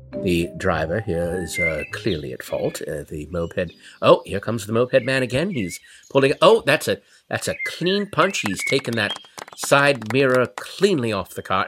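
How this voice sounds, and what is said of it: Hushed golf announcer voice. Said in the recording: “in my golf announcer voice”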